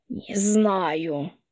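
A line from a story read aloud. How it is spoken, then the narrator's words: Wheezed, gasping for breath. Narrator (Russian): прохрипела Полина, борясь за каждый вздох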